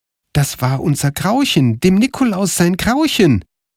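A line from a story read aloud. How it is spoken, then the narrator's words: Called out. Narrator (German): rief Karl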